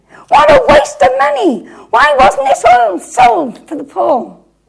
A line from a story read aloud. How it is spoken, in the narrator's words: shouting